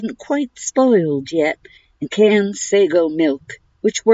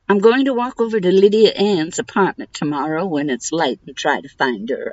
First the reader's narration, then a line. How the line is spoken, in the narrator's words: I said